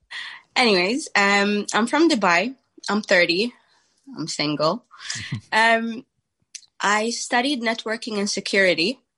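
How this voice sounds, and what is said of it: Sick-sounding, slightly off voice. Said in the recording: “My voice is a bit funny. I'm sick.”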